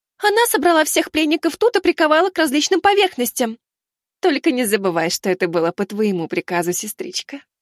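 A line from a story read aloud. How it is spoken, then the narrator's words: Giggling. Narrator (Russian): Хихикнула она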